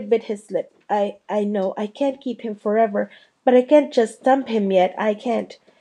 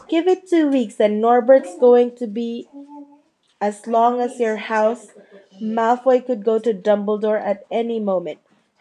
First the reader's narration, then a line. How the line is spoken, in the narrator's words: said Harry loudly